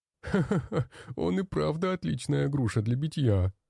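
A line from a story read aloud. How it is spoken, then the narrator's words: Laughing fat man. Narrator (Russian): смеялся толстяк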